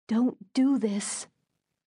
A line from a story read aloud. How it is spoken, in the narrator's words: whispered